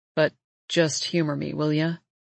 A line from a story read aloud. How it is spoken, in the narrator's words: He says softly